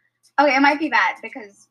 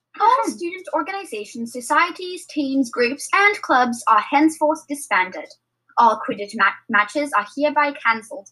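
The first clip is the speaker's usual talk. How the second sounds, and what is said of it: Attempted British accent, sounding Scottish. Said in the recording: “it sounds like a Scottish accent ... It sounds like those airplane voices ... I can't do a British accent today, but like other days it's really good”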